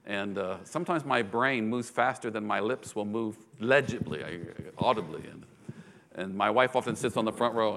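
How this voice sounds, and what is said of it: Non-native English accent. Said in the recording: “you'll forgive my accent, I hope ... My accent,”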